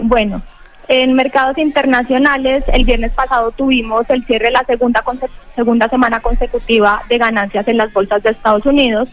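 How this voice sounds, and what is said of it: Colombian Spanish accent. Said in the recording (Spanish): “ese acento, ese acento tan lindo de Colombia”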